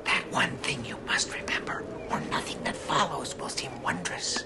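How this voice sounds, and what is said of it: Dramatic whisper. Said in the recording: “Why are you whispering? ... It's for dramatic emphasis.”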